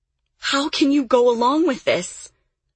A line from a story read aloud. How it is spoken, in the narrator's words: Lily cried